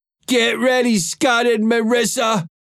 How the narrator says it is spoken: he shouted

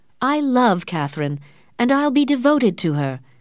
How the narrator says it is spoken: Morris exclaimed

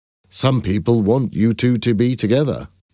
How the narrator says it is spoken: I said

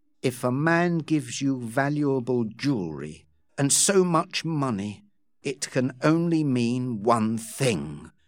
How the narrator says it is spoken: Rawdon said quietly, his heart breaking

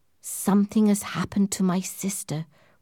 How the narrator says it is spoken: whispered Lady Glyde

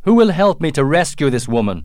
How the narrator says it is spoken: shouted

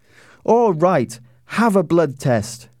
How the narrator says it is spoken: she shouted at the top of her voice

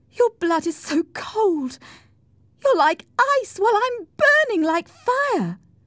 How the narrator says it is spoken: Cathy cried

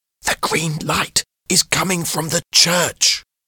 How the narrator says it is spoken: whispered James

